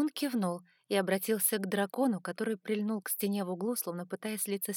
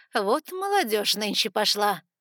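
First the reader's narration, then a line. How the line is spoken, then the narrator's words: Woman snorting. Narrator (Russian): фыркнула женщина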